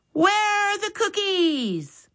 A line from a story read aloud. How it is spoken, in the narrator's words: Max yelled